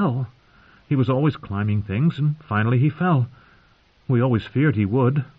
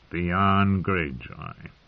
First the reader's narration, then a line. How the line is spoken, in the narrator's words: Tyrion sighed